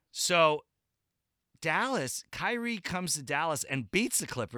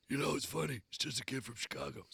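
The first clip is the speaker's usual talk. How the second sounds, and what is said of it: Imitates another person's voice. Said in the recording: “my Doc Rivers impression. It was spot ... On.”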